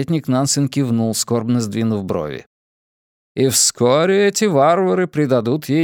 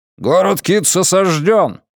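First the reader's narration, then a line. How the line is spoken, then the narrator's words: Barked. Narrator (Russian): рявкнул Марпурго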